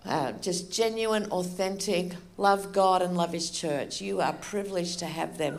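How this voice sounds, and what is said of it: Australian accent. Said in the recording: “as you can tell, I have an Australian accent.”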